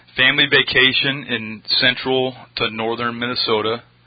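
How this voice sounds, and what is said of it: Minnesota accent. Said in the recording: “You hear that accent for a second there? ... Yeah, Minnesota.”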